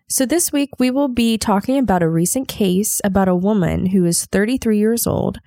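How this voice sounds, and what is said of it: Congested voice from a cold. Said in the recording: “I may sound a little bit different this episode because I have a little bit of a cold”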